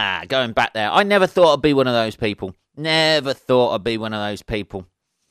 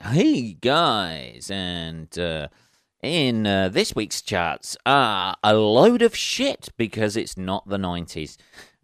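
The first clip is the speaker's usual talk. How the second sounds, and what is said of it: Radio DJ voice. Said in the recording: “sounded like fucking radio DJ voice there”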